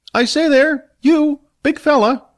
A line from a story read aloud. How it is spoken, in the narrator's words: a voice called out to him